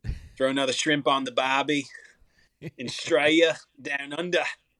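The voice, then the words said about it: Put-on Australian accent. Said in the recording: “I get a little bit better every day at my Australian accent”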